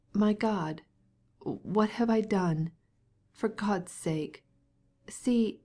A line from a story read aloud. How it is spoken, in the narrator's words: He could not say another word for the sobs that choked him